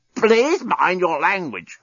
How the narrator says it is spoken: croaked the despot

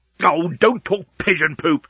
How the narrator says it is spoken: snapped Leovinus

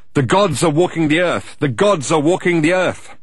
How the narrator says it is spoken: started to shout out

